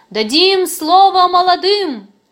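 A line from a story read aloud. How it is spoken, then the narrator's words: Loud shout. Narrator (Russian): Кто-то громко выкрикнул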